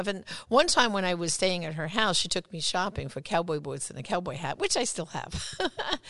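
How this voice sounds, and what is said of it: New York accent. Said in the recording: “That accent of yours ... with that New York accent”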